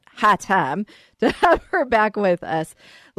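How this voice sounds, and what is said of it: Put-on Texas accent. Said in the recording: “I'm using my Texas accent”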